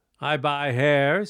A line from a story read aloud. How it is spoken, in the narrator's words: said Madame